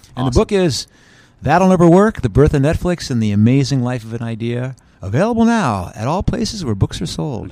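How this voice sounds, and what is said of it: Polished radio announcer voice. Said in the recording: “Good radio voice”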